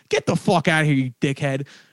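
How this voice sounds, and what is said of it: Exaggerated Philadelphia accent. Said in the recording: “Now let me drop my accent in again real quick”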